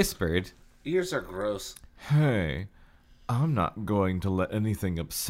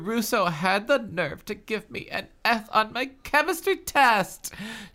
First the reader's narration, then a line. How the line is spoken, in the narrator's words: She cried